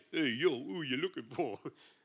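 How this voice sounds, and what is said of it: New York accent. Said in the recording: “I always feel you should say that in a New York accent.”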